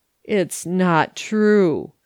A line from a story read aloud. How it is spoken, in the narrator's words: he said, slowly and sadly